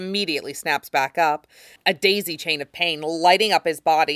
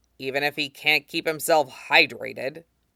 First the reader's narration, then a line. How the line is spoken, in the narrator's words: mutter